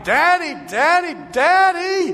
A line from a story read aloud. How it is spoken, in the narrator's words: screaming with all his might